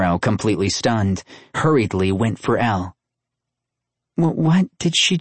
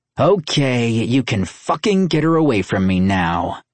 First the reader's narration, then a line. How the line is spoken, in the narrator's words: he growled at Nero